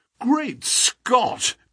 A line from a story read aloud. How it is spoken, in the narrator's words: cried the athlete